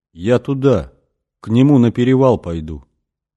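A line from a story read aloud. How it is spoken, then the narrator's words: Detached distant voice. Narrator (Russian): сказала она каким-то отрешенным голосом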